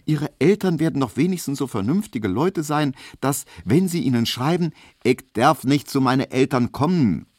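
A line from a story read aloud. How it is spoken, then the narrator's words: Call. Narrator (German): rief Hedwig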